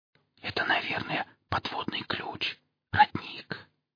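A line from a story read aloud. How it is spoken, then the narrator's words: Doubtful whisper. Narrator (Russian): с сомнением прошептала Хип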